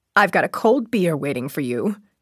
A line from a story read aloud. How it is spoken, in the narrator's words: she murmured